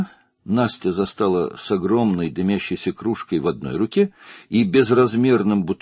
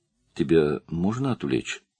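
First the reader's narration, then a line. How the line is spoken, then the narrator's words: Timid question. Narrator (Russian): робко спросила Настя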